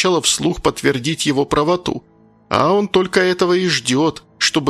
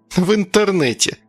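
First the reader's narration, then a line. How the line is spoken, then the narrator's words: Snide remark. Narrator (Russian): ехидно заметила Агата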